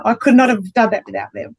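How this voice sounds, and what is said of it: Teary, emotional voice. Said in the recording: “getting teary”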